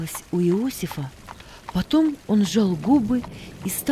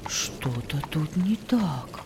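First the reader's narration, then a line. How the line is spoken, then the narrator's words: Whisper. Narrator (Russian): Иосиф прошептал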